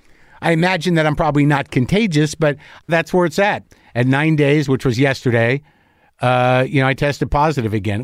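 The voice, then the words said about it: Slightly scratchy, congested voice. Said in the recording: “My voice is a little scratchy. My head's a little stuffed up. I'm a little tired.”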